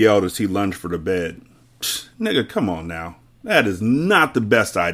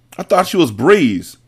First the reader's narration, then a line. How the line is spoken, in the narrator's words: Mecca yelled as he punched a hole through the hospital wall